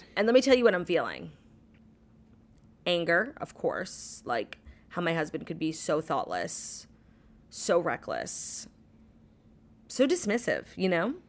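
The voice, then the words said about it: Tired, speaking very slowly. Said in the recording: “I'm feeling tired, I'm not gonna lie. I'm talking very slow, it's very not like me.”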